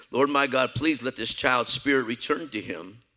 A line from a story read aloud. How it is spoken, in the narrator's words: he cried out to the Lord